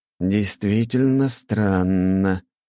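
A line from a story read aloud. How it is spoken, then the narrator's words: Drawled. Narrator (Russian): протянул Корнут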